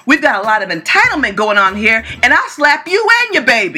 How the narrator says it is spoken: Kathy yells

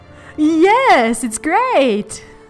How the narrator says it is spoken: I said in a really loud voice

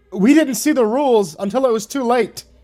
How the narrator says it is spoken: yelled, hoping to make them a little more forgiving of us

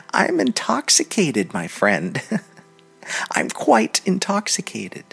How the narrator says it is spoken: She laughed and said to him

